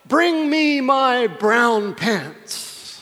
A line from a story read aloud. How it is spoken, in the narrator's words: he yelled out